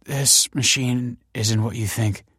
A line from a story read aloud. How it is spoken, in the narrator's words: she croaked